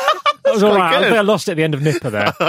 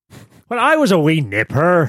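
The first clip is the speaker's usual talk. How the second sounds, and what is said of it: Put-on Northern Irish accent. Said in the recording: “Which one? The Northern Irish one?”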